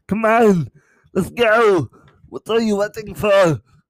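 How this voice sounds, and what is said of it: Arnold Schwarzenegger impression. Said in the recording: “I can do an Arnold Schwarzenegger one.”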